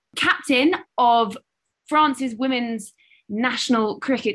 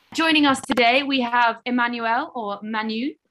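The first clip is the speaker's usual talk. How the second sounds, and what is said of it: Put-on French accent. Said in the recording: “Note my wonderful French accent there. Thank you, GCSE French.”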